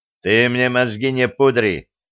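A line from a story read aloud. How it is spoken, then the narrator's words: Stern coach. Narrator (Russian): строго говорит тренер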